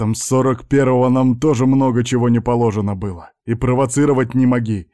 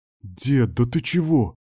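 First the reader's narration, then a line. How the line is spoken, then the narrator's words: Confused mutter. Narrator (Russian): растерянно пробормотал особист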